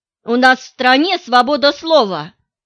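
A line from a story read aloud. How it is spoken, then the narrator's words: Snapped. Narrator (Russian): огрызнулась Алевтина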